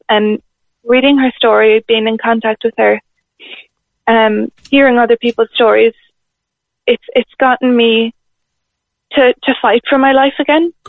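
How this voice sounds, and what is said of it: Emotional, choked-up voice. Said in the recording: “I'm getting a bit emotional”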